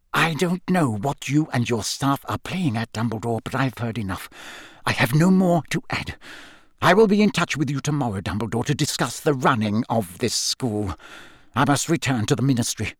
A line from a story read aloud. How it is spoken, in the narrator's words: apparently repelled by the ugly mark on Snape's arm, then looked up at Dumbledore and whispered